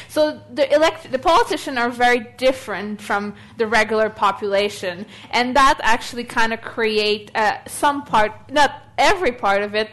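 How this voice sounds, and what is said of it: Non-Australian immigrant accent. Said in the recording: “as you probably can tell by my accent, I'm not Australian, I'm an immigrant”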